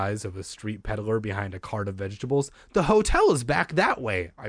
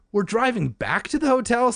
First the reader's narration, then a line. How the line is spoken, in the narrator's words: Sari asked, her voice revealing a surprise